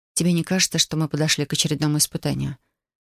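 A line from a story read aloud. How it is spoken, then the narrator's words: Quiet question. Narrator (Russian): Тихо поинтересовалась я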